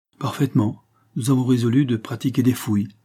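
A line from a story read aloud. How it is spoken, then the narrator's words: Stern tone. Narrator (French): repartit le verrier d'un ton sévère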